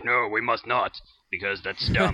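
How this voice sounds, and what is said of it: Character voice impression. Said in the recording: “your Bert impression ... It's better than mine.”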